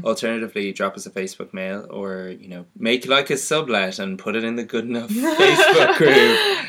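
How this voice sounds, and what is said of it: Irish accent. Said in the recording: “the good-looking one with glasses with the beautiful Irish accent”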